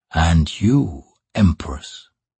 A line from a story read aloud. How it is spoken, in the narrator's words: he whispered